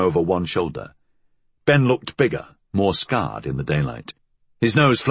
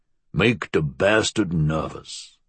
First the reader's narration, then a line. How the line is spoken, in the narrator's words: growled